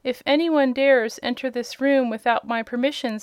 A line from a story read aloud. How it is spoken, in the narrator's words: said Trot